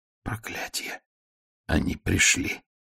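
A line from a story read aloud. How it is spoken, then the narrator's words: Whispered. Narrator (Russian): А задняя часть, которая вот уже более 50 лет благополучно водила его по этим убогим улицам, прошептала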